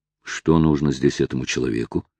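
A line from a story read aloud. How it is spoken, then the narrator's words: Muttered to himself. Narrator (Russian): пробормотал про себя Оливер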